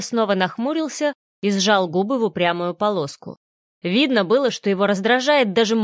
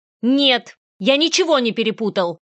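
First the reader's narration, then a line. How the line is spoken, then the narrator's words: Sharp, confident. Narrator (Russian): ответил он резко и уверенно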